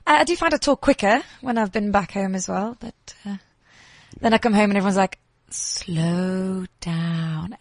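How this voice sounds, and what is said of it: English accent. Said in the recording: “see if I'm still as English then as what I am now ... your accent is quite hectic. Quite hectic.”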